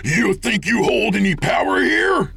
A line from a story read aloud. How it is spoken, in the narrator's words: Jake screamed